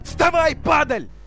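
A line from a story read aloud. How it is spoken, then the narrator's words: Yelled. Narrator (Russian): Заорал нависший над ребенком человек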